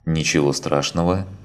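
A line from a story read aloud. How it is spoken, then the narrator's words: Calm reply. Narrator (Russian): спокойно ответила Лина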